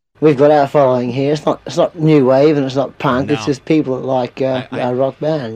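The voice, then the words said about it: High-pitched voice, slight Australian accent. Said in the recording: “a very high-pitched one. ... I heard a little Australian accent there.”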